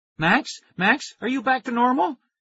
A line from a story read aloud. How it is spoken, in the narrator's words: Tara cried